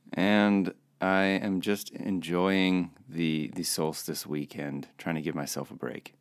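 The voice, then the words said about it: Sleepy, just-woken-up voice. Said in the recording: “As you can hear in my voice, I may have slept in a little.”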